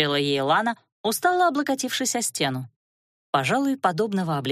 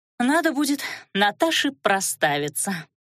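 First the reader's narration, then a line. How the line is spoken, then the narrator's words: Sighing. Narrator (Russian): вздохнула Лана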